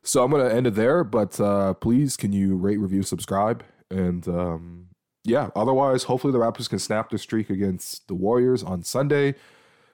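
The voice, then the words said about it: Sick, worn-down voice. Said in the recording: “As you can probably hear from my voice, down pretty bad”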